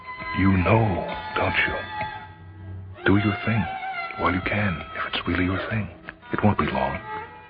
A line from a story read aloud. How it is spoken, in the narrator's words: she whispered